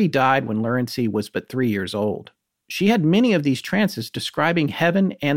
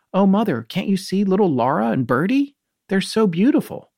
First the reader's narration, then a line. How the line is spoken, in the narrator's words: she exclaimed